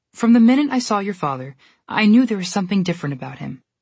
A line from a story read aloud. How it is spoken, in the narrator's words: she said